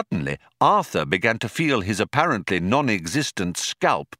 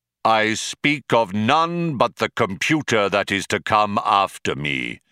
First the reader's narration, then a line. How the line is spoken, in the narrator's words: intoned Deep Thought, his voice regaining its accustomed declamatory tones